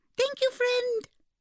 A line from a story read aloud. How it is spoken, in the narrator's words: squeaked the firefly